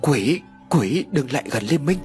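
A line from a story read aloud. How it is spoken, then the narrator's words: Stuttering terrified scream. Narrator (Vietnamese): Hai hàm răng vẫn không ngừng đánh vào nhau lập cập, hét lên lắp bắp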